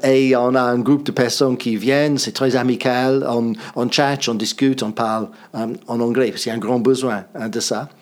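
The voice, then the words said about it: English-accented French. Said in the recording (French): “nous avons la conversation anglaise. Ça, c'est avec moi ... vous avez certainement deviné mon accent.”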